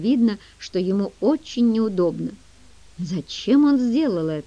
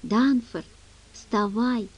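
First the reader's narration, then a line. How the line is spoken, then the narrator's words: Whisper. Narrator (Russian): прошептала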